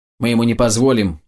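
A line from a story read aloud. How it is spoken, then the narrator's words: Snapping retort. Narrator (Russian): огрызнулся Быр-Карам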